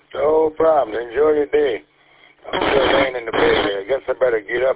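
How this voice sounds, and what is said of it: Rusty, just-woken voice. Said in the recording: “My voice is a little rusty.”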